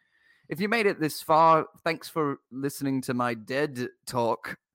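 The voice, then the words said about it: Put-on British accent. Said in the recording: “your wonderful natural British accent ... Yes, very good British”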